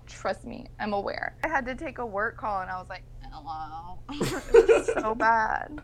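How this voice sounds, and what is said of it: Rough voice with heavy vocal fry. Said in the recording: “I've got the worst voice, the worst vocal fry. I'm tone deaf right now.”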